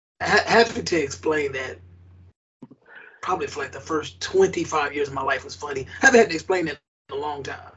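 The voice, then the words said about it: Raspy voice. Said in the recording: “Raspy. ... I've got that all my life.”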